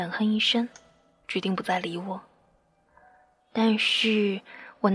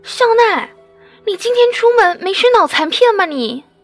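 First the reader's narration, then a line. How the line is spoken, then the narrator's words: Frightened, loud question. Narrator (Chinese): 惊恐的，大声的问着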